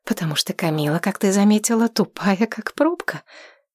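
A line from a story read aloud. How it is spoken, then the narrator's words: Whisper. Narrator (Russian): произнесла шепотом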